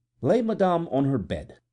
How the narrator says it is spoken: said the Count coldly

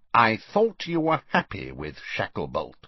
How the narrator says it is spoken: said Scrimgeour coldly

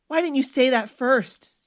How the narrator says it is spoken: Stephanie spluttered

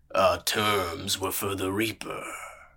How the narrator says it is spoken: murmured

